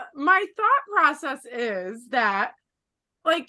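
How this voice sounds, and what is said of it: Usual voice. Nothing is said of it.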